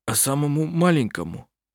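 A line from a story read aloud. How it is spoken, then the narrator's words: Hoarse question. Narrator (Russian): Сипло спросил Густав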